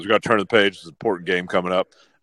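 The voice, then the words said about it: Impression of Jeff Brohm. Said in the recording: “Good Jeff impersonation.”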